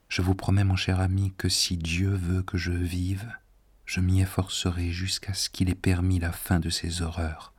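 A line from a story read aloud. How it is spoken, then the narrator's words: Soft, very sad woman. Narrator (French): elle dit doucement, mais si tristement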